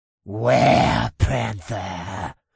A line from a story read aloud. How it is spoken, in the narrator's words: Newt said with a deep, gurgled hiss as a smile twisted up his face